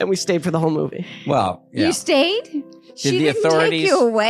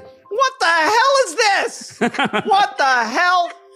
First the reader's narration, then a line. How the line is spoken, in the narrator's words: all she did was scream